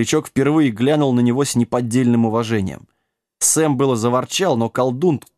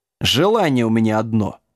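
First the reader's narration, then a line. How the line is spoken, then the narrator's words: Quiet growl. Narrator (Russian): тихо зарычал Джек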